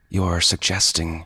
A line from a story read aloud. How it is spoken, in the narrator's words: she said coldly